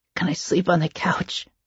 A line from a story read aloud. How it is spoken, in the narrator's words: he asked quietly